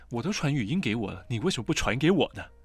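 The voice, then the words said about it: Put-on scammer-style Mandarin accent. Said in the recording (Chinese): “其实都是诈骗的口音...一个是普通话说的比较好，一个是比较南方啊”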